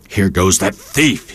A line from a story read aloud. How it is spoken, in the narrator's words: he started to shout